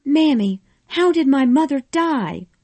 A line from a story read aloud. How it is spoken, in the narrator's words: Scarlet cried weakly